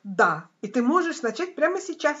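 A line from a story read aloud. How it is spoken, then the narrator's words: Joyful, laughing. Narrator (Russian): сказал Бог, который танцевал, подпрыгивал и смеялся вместе с маленькой душой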